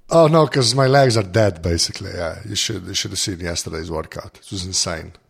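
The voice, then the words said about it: Gravelly, rough voice. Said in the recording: “my voice is all gravelly and stuff ... your voice is gravelly”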